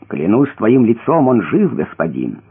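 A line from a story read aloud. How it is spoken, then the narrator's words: Plain. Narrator (Russian): сказал Иуда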